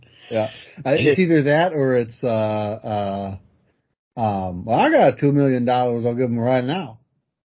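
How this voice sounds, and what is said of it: Mumbly, tired-sounding Southern accent. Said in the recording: “from the South in this accent ... I can't do his accent. It's so I don't know, so mumbly. All you gotta do is just pretend you're tired ... like a stoned out foghorn leghorn”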